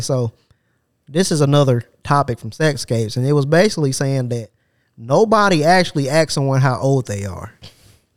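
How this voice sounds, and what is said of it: Voice shifts to cowboy-like drawl. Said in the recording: “your voice just changed like that... you sound like a goddamn cowboy”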